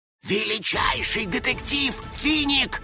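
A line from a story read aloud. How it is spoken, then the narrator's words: Whispering. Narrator (Russian): Шепотом закончил домовой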